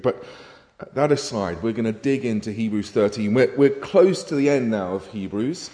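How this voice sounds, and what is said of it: Congested voice from a cold. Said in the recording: “I've just got a little bit of a cold ... My voice is going to go up and down ... I suspect more it will hit the higher registers”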